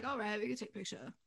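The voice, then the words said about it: Imitates another person's voice. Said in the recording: “My Ken impression needs work.”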